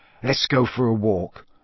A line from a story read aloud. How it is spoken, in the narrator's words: Ron muttered to Harry